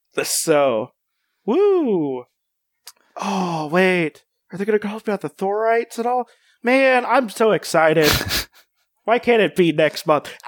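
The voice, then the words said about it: Over-the-top excitement that sounds sarcastic. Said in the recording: “I know I sound like I'm being sarcastic, but I am legitimately really excited.”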